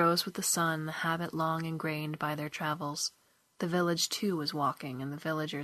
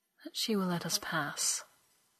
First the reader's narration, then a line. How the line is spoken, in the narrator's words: he said softly